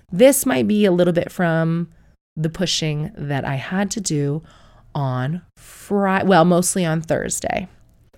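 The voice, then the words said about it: Sick, strained-sounding voice. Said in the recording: “I am sick at the minute. You can hear from my voice.”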